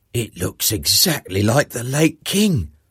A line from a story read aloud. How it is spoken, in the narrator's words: Bernardo managed to whisper to the other two